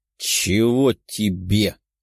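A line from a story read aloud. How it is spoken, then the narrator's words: Angry growl. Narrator (Russian): рыкнул Васильев, желая придушить блондина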